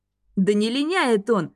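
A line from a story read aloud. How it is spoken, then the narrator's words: Laughing. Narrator (Russian): рассмеялся Лем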